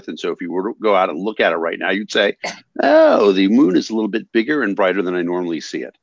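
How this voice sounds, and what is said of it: Smooth radio voice. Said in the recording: “I am so jealous of your radio voice”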